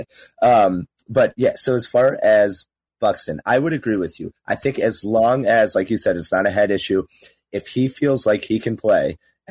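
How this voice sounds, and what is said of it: Hoarse, fading voice. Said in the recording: “I'm losing my voice a little bit. I had quite a weekend. I got after it a little bit too hard.”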